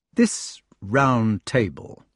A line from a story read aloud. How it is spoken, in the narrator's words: said the older man slowly